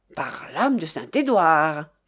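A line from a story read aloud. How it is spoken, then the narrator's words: Exclamation. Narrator (French): s'écria-t-il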